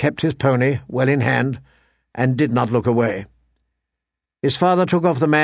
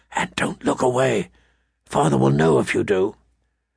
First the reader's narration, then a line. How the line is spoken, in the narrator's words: he whispered